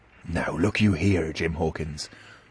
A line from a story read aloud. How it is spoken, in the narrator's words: he said with a steady whisper that was no more than audible